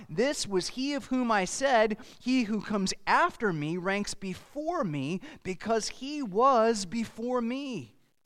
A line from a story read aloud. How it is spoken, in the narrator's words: John cried out